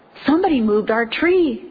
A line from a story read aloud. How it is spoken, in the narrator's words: exclaimed Junior